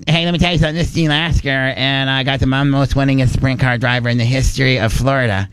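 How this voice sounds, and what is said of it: Over-the-top imitation of another person's voice. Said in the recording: “my best impersonation is Gene Lasker ... it doesn't really sound like Gene ... I just make it so over the top”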